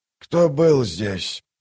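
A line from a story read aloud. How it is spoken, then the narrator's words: Hoarse rasp. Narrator (Russian): прохрипел он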